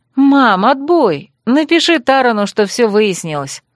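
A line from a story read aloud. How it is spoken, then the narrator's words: Joyful announcement. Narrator (Russian): радостно объявила я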